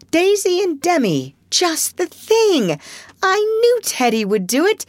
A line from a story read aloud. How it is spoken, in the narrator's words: cried Joe